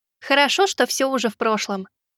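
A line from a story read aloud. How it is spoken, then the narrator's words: Giggling. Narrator (Russian): Кицунэ хихикнула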